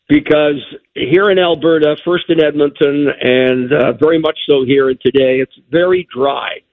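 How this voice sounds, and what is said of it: Hoarse, slightly froggy voice. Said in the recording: “You sound a little froggy. ... I am a little hoarse.”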